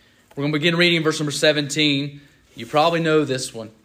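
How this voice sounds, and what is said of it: Usual voice. Nothing is said of it.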